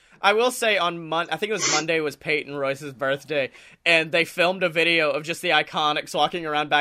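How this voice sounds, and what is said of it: Usual voice. Nothing is said of it.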